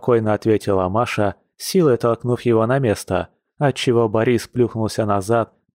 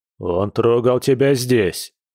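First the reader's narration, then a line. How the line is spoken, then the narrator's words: Bear's gruff bark. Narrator (Russian): рявкнул медведь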